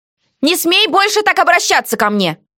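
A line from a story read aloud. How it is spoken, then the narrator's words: Hurt shouted reply. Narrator (Russian): Обиженно прокричала я в ответ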